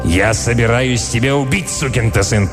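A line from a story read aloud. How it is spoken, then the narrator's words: Growled. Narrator (Russian): прорычал Милтон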